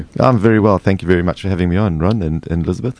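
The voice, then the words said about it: South African accent. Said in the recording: “Love the South African accent.”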